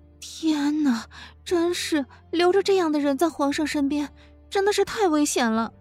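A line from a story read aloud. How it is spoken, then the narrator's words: Sighing. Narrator (Chinese): 慕容菲菲叹道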